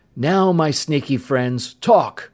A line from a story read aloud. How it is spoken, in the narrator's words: Bud snapped